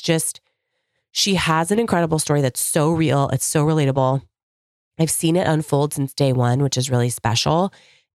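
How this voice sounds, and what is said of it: Voice changed from illness, rough. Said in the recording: “apologize for my voice. We've been recovering from the flu over in my house. So I sound a little different than normal.”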